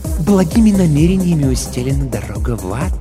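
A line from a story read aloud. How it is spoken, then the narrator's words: Insinuating remark. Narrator (Russian): вкрадчиво заметил Пифон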